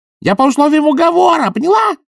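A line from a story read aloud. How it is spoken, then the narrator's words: Yelling. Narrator (Russian): заорал он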